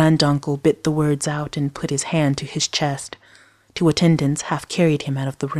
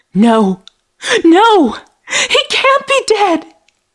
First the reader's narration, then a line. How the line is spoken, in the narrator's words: Layla wailed